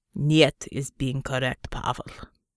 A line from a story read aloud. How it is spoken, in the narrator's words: Untermensch growled